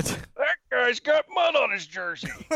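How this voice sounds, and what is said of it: Imitates another person's voice. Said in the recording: “Little John Madden there for you folks ... That was pretty close”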